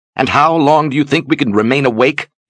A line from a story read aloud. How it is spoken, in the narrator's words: Ulyssia snapped